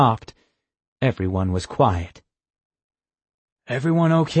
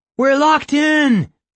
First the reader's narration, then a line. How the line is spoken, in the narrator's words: Austin shouted